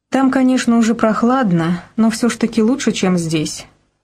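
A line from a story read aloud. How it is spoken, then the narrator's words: Sigh. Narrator (Russian): вздохнула Алина Евгеньевна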